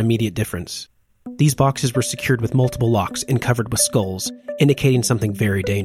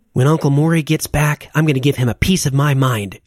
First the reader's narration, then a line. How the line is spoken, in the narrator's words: grumbled under her breath